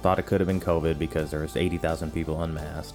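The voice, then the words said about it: Hoarse, strained voice from screaming. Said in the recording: “My voice is a little shot from screaming ... my throat feels like I've been drinking gasoline and gargling broken glass ... a little bit worn out”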